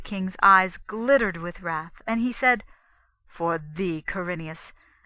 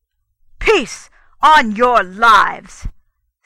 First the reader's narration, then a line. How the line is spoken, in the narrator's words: said the king in a great voice